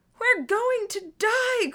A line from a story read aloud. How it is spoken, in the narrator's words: Gordon screamed